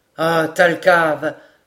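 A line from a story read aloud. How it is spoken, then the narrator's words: Exclaiming. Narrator (French): s'écria Glenarvan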